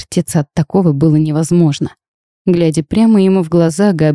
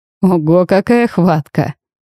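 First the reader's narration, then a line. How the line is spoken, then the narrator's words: Laughing heartily. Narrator (Russian): расхохотался король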